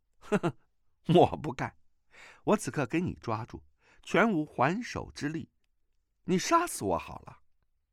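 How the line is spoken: Startled laugh. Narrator (Chinese): 段誉愕然失笑 道

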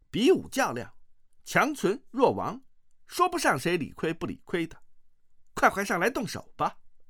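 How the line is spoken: Loud. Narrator (Chinese): 尤坦之只是挂念着阿紫的安危，一心想要尽快杀了玄慈，大声说道

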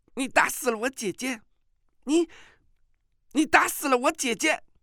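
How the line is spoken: Shocked, angry. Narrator (Chinese): 阿紫…大吃一惊，不再嬉皮笑脸，怒道

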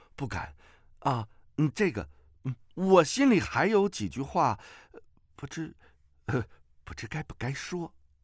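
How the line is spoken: Smiling. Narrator (Chinese): 虚竹一笑说道

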